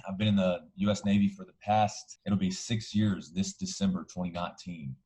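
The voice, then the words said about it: Alabama accent. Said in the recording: “I'm originally from Alabama, if you can't already tell from the accent.”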